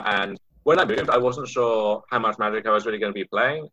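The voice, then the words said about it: British accent. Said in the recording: “as you might be able to tell from the accent, I uh, come from the UK”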